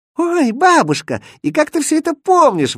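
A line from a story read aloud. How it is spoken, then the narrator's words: Delighted exclamation. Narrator (Russian): воскликнула Маша и от восторга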